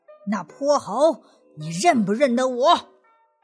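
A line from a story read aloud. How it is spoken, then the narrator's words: Asking. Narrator (Chinese): 大圣问道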